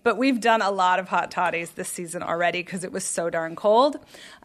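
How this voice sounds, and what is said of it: Sick, congested-sounding voice. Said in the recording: “You sound horrible. ... I have a cold.”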